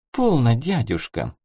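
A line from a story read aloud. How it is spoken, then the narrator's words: Gentle interruption. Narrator (Russian): мягко прервала поток красноречия Милютина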